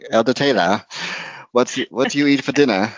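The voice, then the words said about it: Imitates a thick Boston accent. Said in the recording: “She was from uh, Boston, so she had this like super thick accent.”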